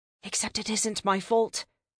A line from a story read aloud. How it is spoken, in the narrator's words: I muttered